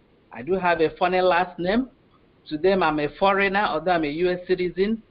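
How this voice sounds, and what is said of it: Speaks with a noticeable accent. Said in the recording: “I have an accent.”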